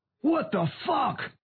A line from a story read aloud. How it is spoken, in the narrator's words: Davis yelled as he tasted blood